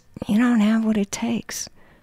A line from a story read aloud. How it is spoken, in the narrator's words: your dance partner murmurs